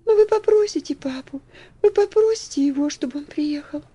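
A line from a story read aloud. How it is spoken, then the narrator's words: Impatient plaintive pleading. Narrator (Russian): С еще большим нетерпением умоляла жалобным голоском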